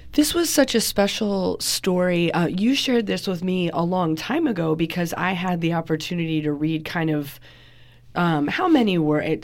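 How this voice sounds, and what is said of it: Lower congested voice from a cold. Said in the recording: “you might sound a little bit different ... you and I have come down with terrible colds ... why you sound like a different person ... A little bit lower.”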